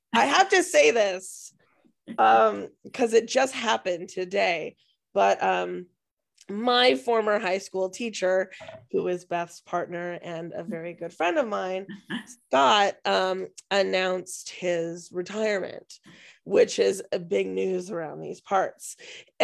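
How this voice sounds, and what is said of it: Strained voice, losing it. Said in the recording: “I am losing my voice so easily these days ... you can hear I'm losing my voice right now”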